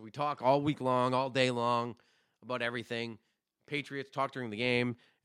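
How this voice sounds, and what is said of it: Sick, damaged voice. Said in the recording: “sorry for my voice today. It was a fucking disaster. I think I may have gotten my wife's double pneumonia.”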